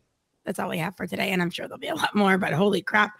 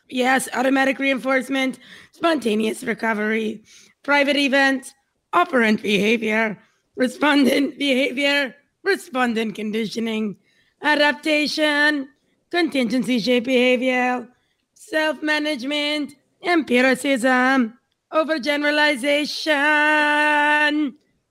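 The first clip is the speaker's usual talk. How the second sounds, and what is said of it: Shifting put-on accents, Israeli-like. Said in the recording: “I went from one accent to Israeli in the middle... I think it was like a little like English... I heard a little bit of French too”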